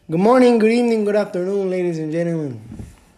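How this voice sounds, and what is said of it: Vague put-on foreign accent. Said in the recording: “I don't know what kind of accent I was going for there. I was trying to go for like a, you know, Latino accent ... or I don't know if that was like a French accent.”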